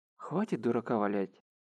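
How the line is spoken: Sighing. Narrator (Russian): Вздохнул Харухира

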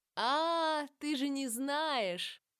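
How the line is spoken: Laughing shout. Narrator (Russian): засмеялась Джованна и закричала

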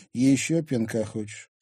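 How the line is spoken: Calm question. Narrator (Russian): спокойно спросил Тимофей

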